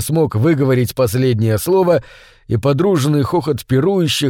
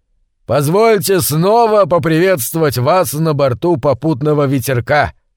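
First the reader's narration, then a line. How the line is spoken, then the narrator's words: Loud proclamation. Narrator (Russian): громко провозгласил он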